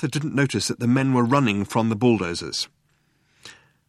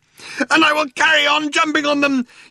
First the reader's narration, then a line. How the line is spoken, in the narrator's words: yelled Arthur, still running